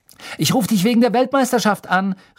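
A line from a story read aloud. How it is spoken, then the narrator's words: Calling after someone. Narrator (German): rief Ron Harry nach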